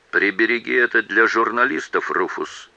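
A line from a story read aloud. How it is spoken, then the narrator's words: Calm remark. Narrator (Russian): спокойно заметил ему Джейк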